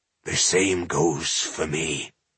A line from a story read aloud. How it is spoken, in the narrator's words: he croaked